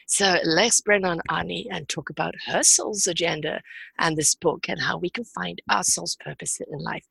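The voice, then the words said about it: Hoarse, chesty voice from a cold. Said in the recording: “Bad cold this week, so sounding a bit hoarse and a bit chesty.”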